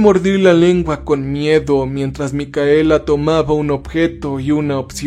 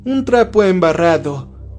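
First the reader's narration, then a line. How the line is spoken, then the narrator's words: Laughing. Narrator (Spanish): se rió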